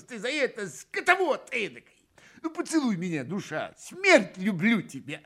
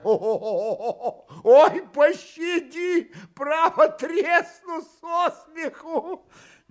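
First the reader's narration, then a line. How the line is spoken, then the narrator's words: Roaring with laughter. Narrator (Russian): Ноздрев продолжал хохотать во все горло, приговаривая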